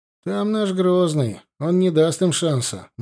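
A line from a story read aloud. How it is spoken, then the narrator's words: Gloomy objection. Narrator (Russian): мрачно возразил Лобанов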